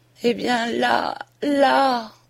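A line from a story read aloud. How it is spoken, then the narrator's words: Faint, failing voice. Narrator (French): dit-elle d'une voix défaillante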